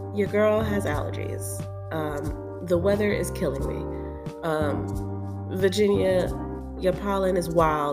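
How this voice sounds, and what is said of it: Nasal, congested voice. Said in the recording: “I sound a little nasally ... Sorry about the whole nasally thing.”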